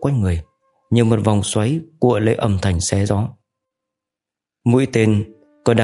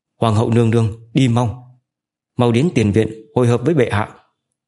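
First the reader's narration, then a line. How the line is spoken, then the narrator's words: Desperate loud shout. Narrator (Vietnamese): Hai hộ vệ toàn thân đẫm máu hét lớn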